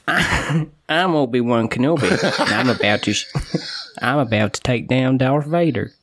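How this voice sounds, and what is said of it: Put-on American accent. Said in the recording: “doing that voice ... all American voices”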